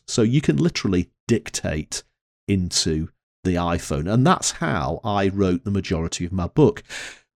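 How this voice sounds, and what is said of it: Northern English accent. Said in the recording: “my Northern English accent”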